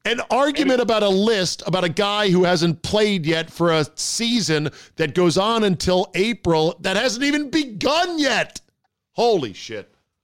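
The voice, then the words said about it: Yelling, loud agitated speech. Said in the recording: “Am I yelling right now? I'm yelling, aren't I?”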